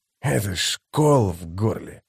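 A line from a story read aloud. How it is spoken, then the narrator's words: Grumbled. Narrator (Russian): буркнул он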